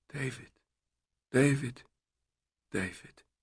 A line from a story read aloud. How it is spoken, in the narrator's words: she whispered over and over as her lips pressed his neck